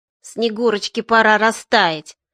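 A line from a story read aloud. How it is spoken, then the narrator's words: Nasty nasal voice. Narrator (Russian): мерзким голосом загундосила я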